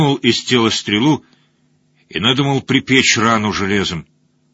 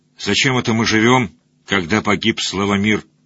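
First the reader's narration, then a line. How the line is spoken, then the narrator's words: Quiet, effortful. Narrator (Russian): Белозерскому воеводе понадобилось усилие, чтобы ... тихо сказать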